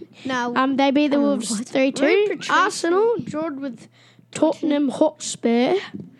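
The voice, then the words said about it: Put-on English accent. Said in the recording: “Why do you have to do it in a weird accent? ... It's called an English accent.”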